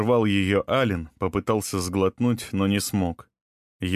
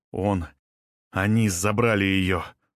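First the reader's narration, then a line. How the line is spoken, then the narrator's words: Breathless. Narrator (Russian): выдохнул Ален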